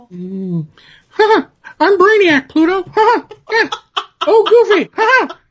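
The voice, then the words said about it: Imitates another person's Mickey Mouse voice. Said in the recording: “my Jim Clarinet impersonation. It's just me doing Bruce Prichard doing Jim Clarinet doing Mickey Mouse”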